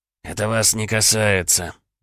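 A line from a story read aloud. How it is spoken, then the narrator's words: Hissed. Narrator (Russian): прошипел Виктор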